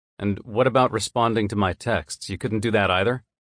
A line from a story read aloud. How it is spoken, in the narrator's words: My tone is sharper than I intended